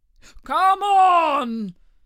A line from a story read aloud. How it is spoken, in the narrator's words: cried the Gryphon